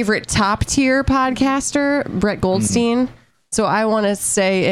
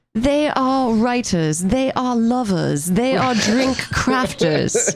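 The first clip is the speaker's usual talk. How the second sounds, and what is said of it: Put-on British accent. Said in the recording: “in my best British accent”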